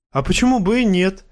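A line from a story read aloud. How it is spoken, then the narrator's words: Laughing. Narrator (Russian): засмеялся Клей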